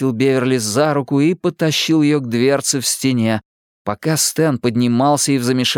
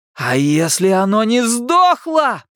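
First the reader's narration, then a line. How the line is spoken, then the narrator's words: Shouted reply. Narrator (Russian): прокричал в ответ Билл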